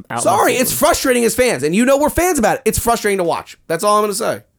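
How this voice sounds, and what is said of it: Yelling, frustrated raised voice. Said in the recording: “I know I'm yelling and screaming about it”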